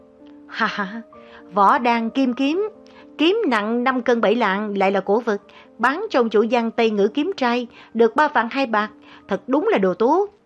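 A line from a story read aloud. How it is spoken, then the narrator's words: Loud laughter. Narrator (Vietnamese): Hoàng Thất ngửa cổ lên trời cười lớn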